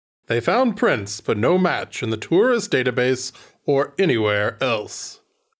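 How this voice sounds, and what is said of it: Put-on accent. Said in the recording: “What is this accent? ... I'm just doing white man.”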